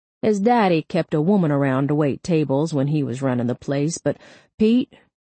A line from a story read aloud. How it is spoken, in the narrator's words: he said, chuckling